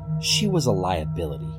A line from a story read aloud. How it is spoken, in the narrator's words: said coldly